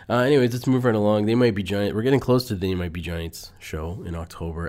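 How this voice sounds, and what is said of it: Nasal voice from a cold. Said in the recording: “I've had this, I don't know, it's like a cold sinus thing going on, so that might be affecting my voice. So if I sound a little nasally, or more so than usual”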